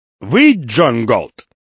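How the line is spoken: Overly loud question. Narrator (Russian): спросил излишне громко

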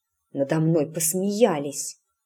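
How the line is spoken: Muttered. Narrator (Russian): пробормотала Эск

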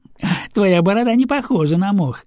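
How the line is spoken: Girl's giggle. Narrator (Russian): хихикнула девушка

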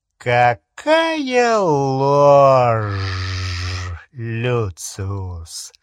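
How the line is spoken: Quiet lingering hiss. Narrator (Russian): Шипение, послышавшееся в негромком голосе, казалось, продолжалось и после того, как его жесткий рот замер

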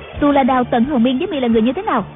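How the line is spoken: Shouted question. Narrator (Vietnamese): Đạo cô quát hỏi

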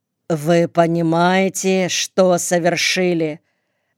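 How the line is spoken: Stern question. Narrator (Russian): Наконец строго спросил лейтенант

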